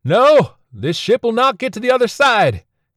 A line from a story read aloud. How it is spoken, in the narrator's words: yelled